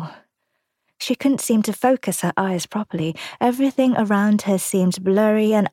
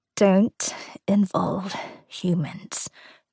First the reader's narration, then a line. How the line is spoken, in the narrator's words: Gran murmured